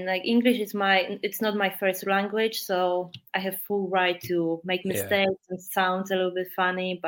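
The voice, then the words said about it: Strong Polish accent in English. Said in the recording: “my really strong Polish accent”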